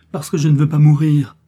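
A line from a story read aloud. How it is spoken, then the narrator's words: Desperate struggling cry. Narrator (French): s'écria Milady en se débattant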